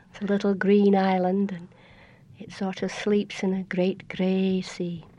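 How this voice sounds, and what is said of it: Scottish Hebridean accent. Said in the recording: “that accent ... I was born in the northeast corner of Scotland in Aberdeen, but that's not where my accent comes from. I grew up on a little island in the Outer Hebrides”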